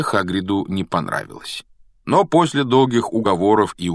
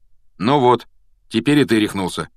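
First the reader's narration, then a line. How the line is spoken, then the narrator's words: Calm. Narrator (Russian): спокойно отреагировал тот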